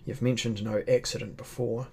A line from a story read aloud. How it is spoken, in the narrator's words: said I grimly